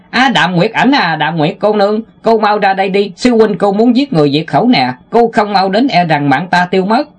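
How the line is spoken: Loud yelling from afar. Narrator (Vietnamese): Tiểu Ngô gào lớn

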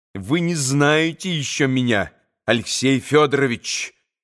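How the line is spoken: Menacing. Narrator (Russian): грозно сказала она

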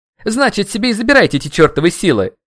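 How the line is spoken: Shouting. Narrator (Russian): закричал

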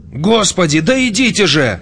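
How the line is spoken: Shouting. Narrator (Russian): закричал он

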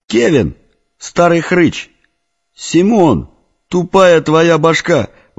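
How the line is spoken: Excited shout. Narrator (Russian): восторженно закричал рыжий

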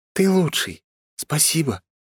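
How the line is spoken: Whisper in the ear. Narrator (Russian): прошептала она мне на ухо

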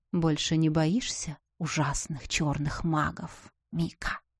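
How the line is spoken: Whispering. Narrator (Russian): шепнул герцог

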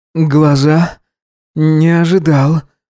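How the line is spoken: Breathless, trembling. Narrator (Russian): выдохнул он, дрожа

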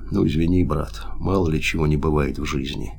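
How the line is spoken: Quiet. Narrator (Russian): сказал тихо

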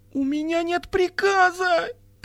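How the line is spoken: Moaning. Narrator (Russian): простонала Экемент

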